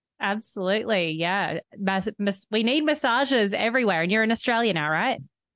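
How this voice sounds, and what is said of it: Australian accent. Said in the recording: “I'm in the US with an Aussie accent ... I heard the Aussie accent”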